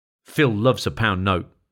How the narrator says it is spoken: said Hearn

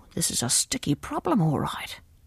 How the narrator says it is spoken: muttered Miss Beasley

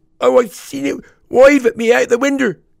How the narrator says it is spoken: wailed the boy

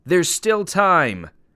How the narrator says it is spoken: shouted

